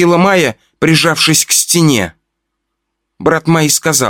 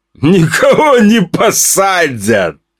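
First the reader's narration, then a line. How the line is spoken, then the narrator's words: Laughing. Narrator (Russian): рассмеялся брат Майи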